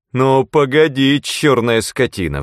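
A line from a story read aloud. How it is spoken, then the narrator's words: Roar. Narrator (Russian): взревел Диксон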